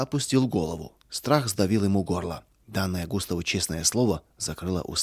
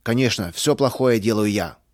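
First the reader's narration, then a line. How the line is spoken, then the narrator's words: Angry. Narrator (Russian): сердито повторил Густав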